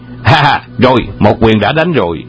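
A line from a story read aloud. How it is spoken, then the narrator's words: Laughing loudly. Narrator (Vietnamese): Hoàng Dược Sư cười lớn và nói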